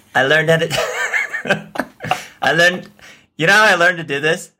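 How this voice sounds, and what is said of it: Imitates another person's voice. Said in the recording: “I figured out how to do a Donald Trump impression”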